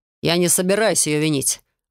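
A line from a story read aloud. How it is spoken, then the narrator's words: Growling. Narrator (Russian): рыкнул герцог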